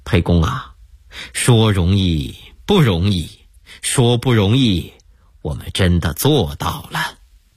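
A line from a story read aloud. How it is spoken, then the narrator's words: With a smile. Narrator (Chinese): 张良一笑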